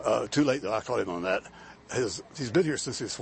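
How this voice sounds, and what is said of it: Usual voice. Nothing is said of it.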